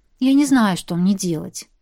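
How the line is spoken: Sighing. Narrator (Russian): вздохнула

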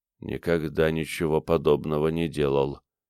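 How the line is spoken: Quiet. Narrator (Russian): тихо сказал он

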